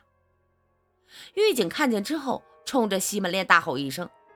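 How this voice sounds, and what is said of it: Usual voice. Nothing is said of it.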